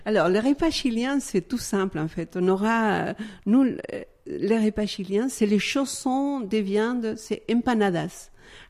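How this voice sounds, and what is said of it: Chilean accent speaking French. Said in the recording (French): “je suis d'origine chilienne. ... Ça s'entend un tout petit peu. ... ça entend beaucoup même. ... c'est charmant comme accent”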